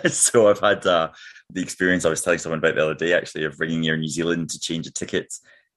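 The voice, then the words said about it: Glaswegian Scottish accent. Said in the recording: “your accent? ... when you're Glaswegian”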